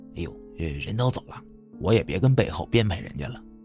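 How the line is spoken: Very low voice. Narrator (Chinese): 这店主最后一句话声音压得极低，又给自己解释

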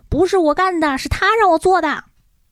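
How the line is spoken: Frantic shouting. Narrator (Chinese): 实习医生内藤也在疯狂的乱喊

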